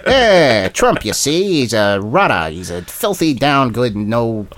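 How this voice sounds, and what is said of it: Old-timey 1940s-style New York voice. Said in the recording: “I can't do his accent, but... Was he from the 1940s?”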